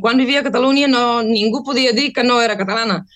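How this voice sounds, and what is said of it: Non-native accent in Catalan. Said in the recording (Catalan): “el meu accent ara es nota moltíssim ... el meu accent una miqueta semblava que era de Mallorca”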